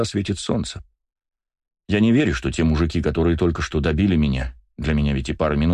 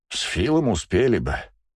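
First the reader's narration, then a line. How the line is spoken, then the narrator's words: Sigh. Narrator (Russian): вздохнул Свен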